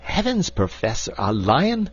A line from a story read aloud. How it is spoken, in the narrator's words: cried Mr